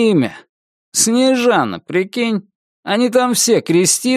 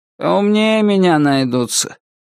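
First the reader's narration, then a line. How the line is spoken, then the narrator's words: Grumbling. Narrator (Russian): пробурчал Юрий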